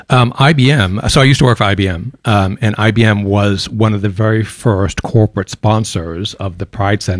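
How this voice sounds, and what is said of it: American accent with a twang. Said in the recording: “a twang in your accent ... I'm an American, born and raised in Boston, Massachusetts. Used to have a very, very heavy Bostonian accent that has softened over the years ... a bit of a southern twang ... picked up an Aussie accent ... picked up a Singapore accent”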